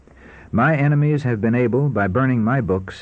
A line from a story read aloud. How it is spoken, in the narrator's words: he said